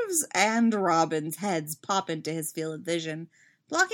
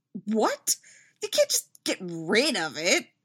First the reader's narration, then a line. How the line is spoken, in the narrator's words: Steve sputters